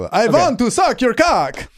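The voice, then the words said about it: Dracula voice, slightly Italian-sounding. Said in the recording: “my impersonation of a horny Dracula ... It sounds a bit Italian”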